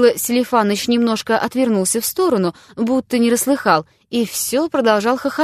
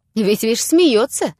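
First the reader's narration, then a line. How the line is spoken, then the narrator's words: Spiteful, angry. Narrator (Russian): продолжал Лупихин, злобно глядя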